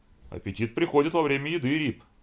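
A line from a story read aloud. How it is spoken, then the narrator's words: Laughing. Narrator (Russian): засмеялся юрист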